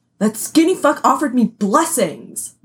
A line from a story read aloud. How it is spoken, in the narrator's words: Manny snapped